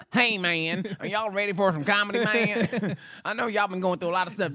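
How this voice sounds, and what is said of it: Poor impression of another person's voice. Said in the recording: “The worst Chappelle impression... I'm not an impressionist... We're both terrible.”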